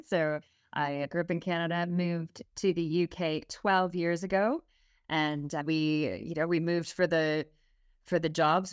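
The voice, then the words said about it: Canadian English accent. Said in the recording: “you have an accent. ... I have a Canadian accent”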